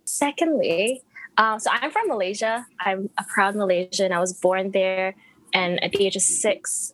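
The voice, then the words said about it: International, American-sounding accent. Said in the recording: “my accent is confusing, people are like, "Are you American?" ... it's an international accent”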